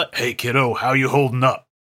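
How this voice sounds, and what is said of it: Gruff character voice. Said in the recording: “With a gruff voice”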